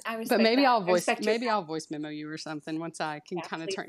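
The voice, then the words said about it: Thick country accent. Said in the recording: “my accent's a little thicker ... turn off the country”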